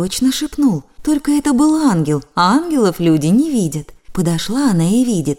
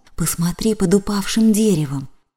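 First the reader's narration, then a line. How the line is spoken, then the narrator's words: Whisper in the ear. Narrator (Russian): словно кто в ухо ей шепнул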